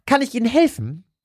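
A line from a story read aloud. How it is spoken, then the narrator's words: Squeaky interrupting voice. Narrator (German): unterbrach eine piepsige Stimme Eddies Gedanken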